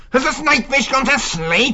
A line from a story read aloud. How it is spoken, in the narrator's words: He snarled